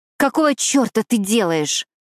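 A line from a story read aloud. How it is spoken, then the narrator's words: Growl. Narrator (Russian): прорычала я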